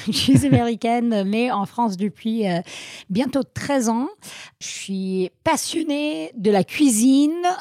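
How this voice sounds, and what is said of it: Slight American accent in French. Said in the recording (French): “j'ai un petit accent”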